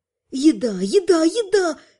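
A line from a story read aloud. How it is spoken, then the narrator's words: Joyful singing. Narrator (Russian): радостно пел желудок полуэльфийки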